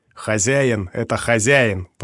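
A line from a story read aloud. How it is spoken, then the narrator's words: Growled. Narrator (Russian): прорычал Роб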